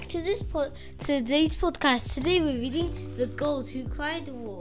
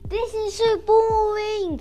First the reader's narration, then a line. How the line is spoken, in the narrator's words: screamed Princess Umbrella